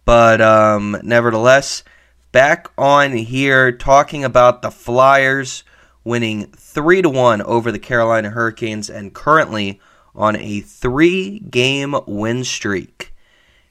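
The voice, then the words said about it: Slightly raspy hoarse voice. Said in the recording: “dealing with some type of frog in my throat ... my voice sounds a little raspy”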